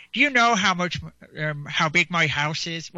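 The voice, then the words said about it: Put-on Irish accent. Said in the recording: “he doesn't tweet with an Irish accent, so I'm just putting that on”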